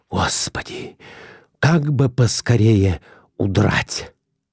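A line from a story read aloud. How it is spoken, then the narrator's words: Whispered. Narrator (Russian): прошептал Николай Иванович в нетерпении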